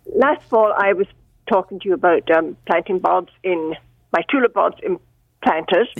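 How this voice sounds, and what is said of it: Speaks with an accent. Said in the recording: “It must be my accent. My accent.”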